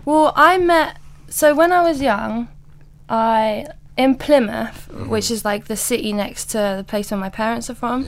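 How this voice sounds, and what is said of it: Mixed London and English country accent. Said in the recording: “you do have a strange accent ... sometimes it will come out the old country ... I've got bits of a London accent, but there's bits of a like my country accent that I can't shake. Like I say past or grass.”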